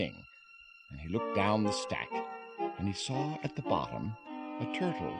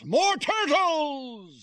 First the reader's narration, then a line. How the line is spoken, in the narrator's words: He bellowed and brayed